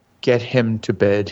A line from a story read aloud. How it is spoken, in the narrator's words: he said wearily